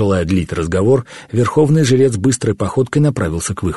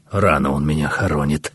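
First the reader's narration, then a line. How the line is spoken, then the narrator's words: Muttered through teeth. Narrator (Russian): процедил сквозь зубы Гаумата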